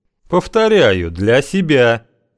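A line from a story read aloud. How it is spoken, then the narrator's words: Near shout. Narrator (Russian): почти выкрикнул Кузьма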